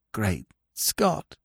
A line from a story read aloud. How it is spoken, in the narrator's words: he whispered hoarsely